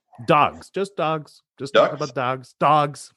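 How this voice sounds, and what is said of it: Canadian accent. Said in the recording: “I know that was my Canadian accent.”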